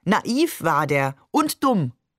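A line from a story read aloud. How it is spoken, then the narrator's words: Called out. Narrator (German): rief Maman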